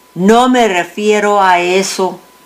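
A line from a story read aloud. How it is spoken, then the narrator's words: Plain. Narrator (Spanish): dijo Andrés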